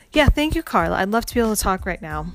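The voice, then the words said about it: Fake, put-on polite voice. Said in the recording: “My fake voice came out again.”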